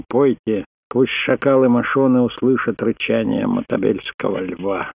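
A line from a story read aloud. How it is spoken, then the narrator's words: Growling. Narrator (Russian): прорычал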